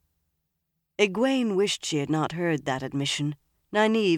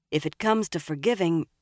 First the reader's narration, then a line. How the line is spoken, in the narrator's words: Min said